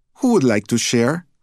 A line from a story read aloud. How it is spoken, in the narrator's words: asked sweetly